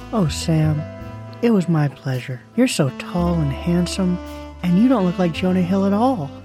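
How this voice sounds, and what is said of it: Man doing unpolished female voice. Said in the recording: “my girl voice is a work in progress”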